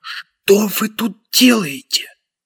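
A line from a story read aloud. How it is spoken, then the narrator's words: Strangled whisper. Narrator (Russian): проговорил сдавленным шепотом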